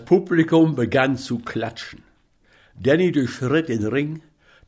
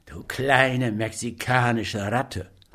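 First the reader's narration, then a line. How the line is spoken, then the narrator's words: Hissing through a smile. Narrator (German): drang es zischend zwischen den lächelnden Lippen hervor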